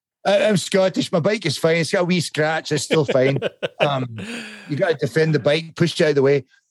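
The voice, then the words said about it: Put-on Scottish accent. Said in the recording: “My Scottish accent's better than my Australian one. It's good.”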